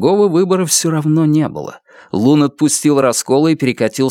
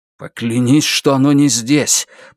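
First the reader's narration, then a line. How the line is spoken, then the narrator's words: Hiss. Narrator (Russian): прошипел Лун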